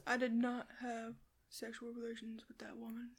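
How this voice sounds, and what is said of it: Imitates another person's voice. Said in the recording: “great impression”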